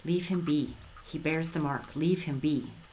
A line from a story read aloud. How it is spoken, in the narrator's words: someone whisper